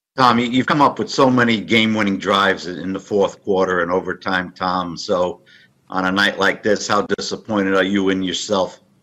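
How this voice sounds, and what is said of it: Thick Florida accent. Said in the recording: “that reporter had a thick Florida accent”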